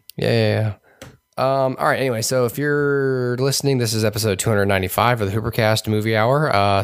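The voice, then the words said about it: Hoarse, partly lost voice. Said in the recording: “I lost my voice. So I spent, you can still hear it a little bit ... pardon my voice for this show tonight”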